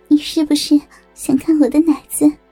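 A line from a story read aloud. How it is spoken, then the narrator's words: Smiling. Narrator (Chinese): 小梅微笑着说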